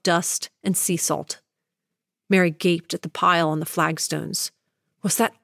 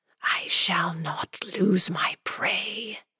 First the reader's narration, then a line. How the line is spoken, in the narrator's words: threatened the whispers